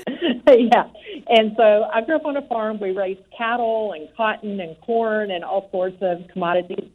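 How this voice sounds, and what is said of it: Texas accent. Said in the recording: “I grew up on a farm in Texas. I don't know if you hear any accents. ... Yes.”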